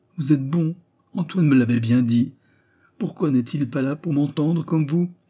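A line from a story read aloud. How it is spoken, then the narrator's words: Crying out. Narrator (French): s'écria Raymond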